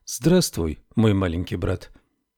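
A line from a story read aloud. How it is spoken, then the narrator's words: Gentle. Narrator (Russian): ласково сказала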